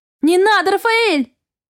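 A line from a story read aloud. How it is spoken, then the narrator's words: Sharp cry. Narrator (Russian): Вскрикнула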